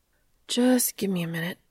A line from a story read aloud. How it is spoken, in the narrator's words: said Dean, wearily